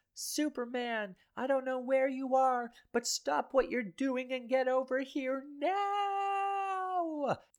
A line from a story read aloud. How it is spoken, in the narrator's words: As Lois falls, she yells